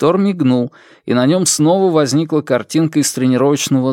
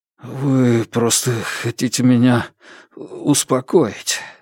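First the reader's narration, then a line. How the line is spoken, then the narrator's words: Hoarse mutter. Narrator (Russian): хрипло пробормотал Лю Ксу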